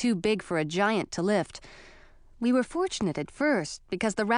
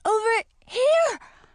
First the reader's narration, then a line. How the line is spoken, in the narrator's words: I spluttered as water washed over me